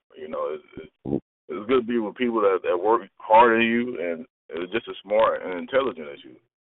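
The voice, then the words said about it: Slight Southern country accent. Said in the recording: “I'm from the country, I got a little accent, so it's hard for me to say iron ... Where in the South are you from”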